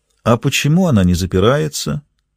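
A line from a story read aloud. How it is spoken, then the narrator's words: Silky, ingratiating question. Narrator (Russian): вкрадчиво спросил Карлос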